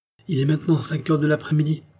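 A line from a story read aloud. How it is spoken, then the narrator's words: Crying out. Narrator (French): s'écria Paulin Broquet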